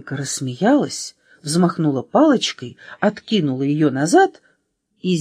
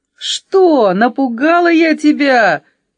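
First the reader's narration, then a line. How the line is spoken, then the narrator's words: Cheerful shout. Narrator (Russian): весело закричала пятерка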